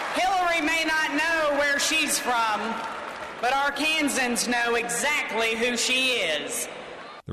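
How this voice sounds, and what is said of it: Arkansas Southern accent. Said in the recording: “Sometimes an Arkansas accent. But y'all, this is what a real Arkansas woman sounds like.”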